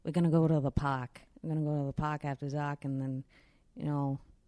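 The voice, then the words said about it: Thick put-on Boston accent. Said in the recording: “I gave her a very thick Boston accent.”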